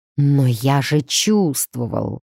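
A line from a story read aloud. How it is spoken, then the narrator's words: Crazed mumbling. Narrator (Russian): бормотал Цезарий, словно сумасшедший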